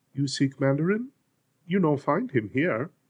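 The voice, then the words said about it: Soft, sing-song heavy accent. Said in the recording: “She sing-songed her reply through a heavy accent. Her voice was soft”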